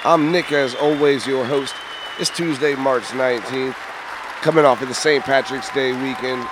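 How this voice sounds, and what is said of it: Hoarse, partly lost voice. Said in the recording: “My voice is a little gone because I had announced 3 games”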